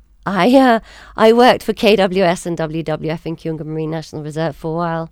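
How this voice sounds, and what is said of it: Foreign white-person accent. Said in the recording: “So you've got a Mzungu accent.”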